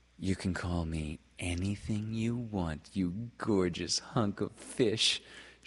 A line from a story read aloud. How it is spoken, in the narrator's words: she said in her bedroom voice, a voice she had mastered early in life